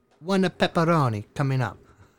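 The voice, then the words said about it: Weak put-on Italian accent. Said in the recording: “this was an authentic accent. I know my accent does no justice whatsoever... He was Italian as fuck.”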